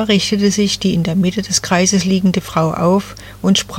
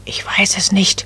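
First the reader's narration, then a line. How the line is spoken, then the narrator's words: Whispered reply. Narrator (German): flüsterte Nadelbäumchen zurück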